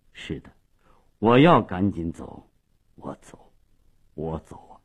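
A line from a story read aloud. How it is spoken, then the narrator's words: Low hoarse voice. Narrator (Chinese): 马利奇沉默了半分钟，最后用低沉沙哑的声音说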